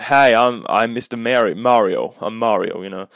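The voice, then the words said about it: Weak put-on American accent. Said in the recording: “I can't do a good American accent”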